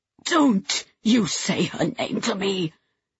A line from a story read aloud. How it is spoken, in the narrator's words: Louise hissed